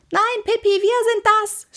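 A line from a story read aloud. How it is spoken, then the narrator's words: Screamed. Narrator (German): schrie Annika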